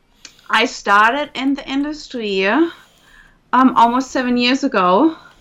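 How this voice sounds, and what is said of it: German accent. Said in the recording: “As you can tell from my accent, I'm German. Well, actually, half German.”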